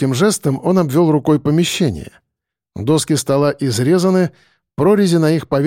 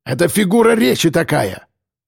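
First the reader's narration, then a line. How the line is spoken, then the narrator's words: Officer barking. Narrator (Russian): рявкнул подполковник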